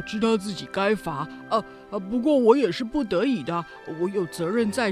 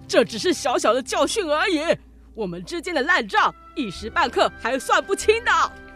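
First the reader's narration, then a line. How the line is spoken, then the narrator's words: Roaring. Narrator (Chinese): 帕斯巴德大吼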